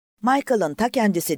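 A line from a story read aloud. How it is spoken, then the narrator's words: Someone shouting. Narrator (Turkish): diye bağırdı biri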